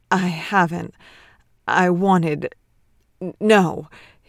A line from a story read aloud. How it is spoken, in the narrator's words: he stuttered, fighting to hold himself still